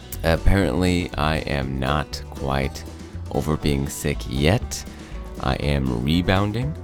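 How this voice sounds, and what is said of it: Sick-sounding voice. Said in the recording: “this is my sick or sexy voice ... please excuse my sick voice”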